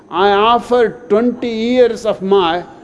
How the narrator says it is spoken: Moise starts waving his arms around and shouts

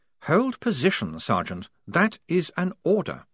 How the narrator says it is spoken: said Blouse calmly

